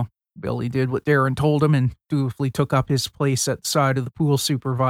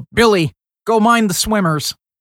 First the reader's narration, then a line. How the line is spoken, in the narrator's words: Darren yelled